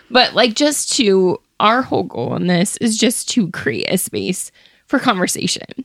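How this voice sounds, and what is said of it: Crackling, tearful voice. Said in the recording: “my voice is crackling”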